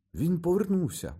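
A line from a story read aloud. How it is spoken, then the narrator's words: Exclaimed. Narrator (Ukrainian): вигукнув Джордж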